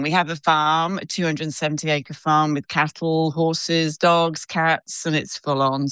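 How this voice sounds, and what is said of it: British accent with Australian twang. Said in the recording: “I can hear the Australian twang, but I feel like you're someone from Britain who's moved over there ... my British accent”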